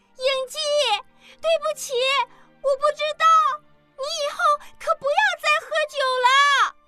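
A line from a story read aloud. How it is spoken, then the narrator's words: Loud shout. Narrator (Chinese): 阿莲…大声喊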